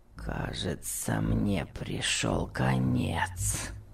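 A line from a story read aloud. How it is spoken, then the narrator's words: Groaning. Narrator (Russian): простонал Том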